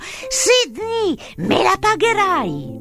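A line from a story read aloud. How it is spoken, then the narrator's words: Shouting. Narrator (Italian): gridando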